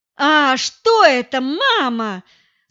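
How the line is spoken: Yelling. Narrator (Russian): заорала я

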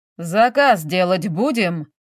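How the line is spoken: Booming voice. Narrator (Russian): прогремел голос официантки

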